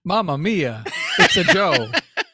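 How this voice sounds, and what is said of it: Put-on Italian accent. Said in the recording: “if you do an Italian accent next”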